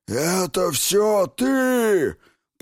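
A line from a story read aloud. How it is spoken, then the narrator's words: Growl. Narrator (Russian): прорычала госпожа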